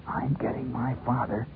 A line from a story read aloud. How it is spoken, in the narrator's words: Schwartz leaned into the wind and hissed